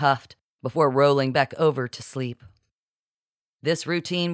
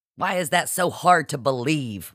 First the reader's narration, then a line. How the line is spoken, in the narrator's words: Marci spat indignantly